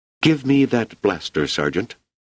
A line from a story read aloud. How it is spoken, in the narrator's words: she said tightly